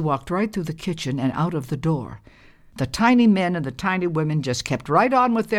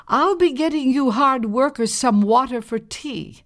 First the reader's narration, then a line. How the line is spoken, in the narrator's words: called out